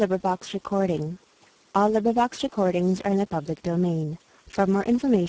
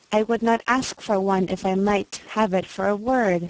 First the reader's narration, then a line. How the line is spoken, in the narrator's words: said I